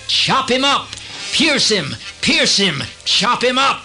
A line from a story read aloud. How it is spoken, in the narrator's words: They shouted